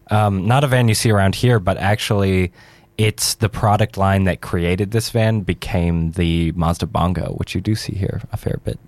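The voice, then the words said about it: Non-local accent. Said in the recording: “does have an accent. He's not exactly a local”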